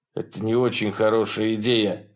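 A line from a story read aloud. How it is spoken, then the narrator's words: Warning tone. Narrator (Russian): сказал я предупреждающим тоном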